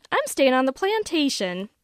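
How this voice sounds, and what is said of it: Mocking Southern accent. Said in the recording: “mimic me in a southern accent ... She's still doing the accent.”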